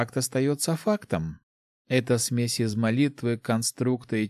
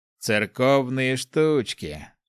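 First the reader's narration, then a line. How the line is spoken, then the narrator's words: Snorting. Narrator (Russian): хмыкнул старшая рука тьмы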